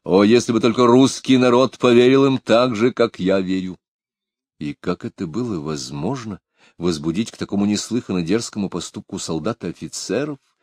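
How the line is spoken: Plain question. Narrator (Russian): спросила государня

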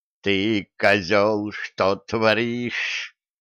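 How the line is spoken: Hissing. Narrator (Russian): прошипел Кощей

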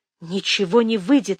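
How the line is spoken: Barely breathed out. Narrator (Russian): еле выдохнула

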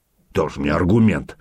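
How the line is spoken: Gruff mutter. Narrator (Russian): буркнул Сергей Иванович

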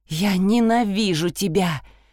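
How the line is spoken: Breathless, then moaning. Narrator (Russian): выдохнула она и застонала

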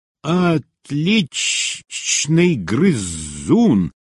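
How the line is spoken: Hissed. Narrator (Russian): прошипела Глайд

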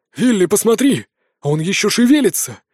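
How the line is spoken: Sudden exclamation. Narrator (Russian): вдруг воскликнул Мор

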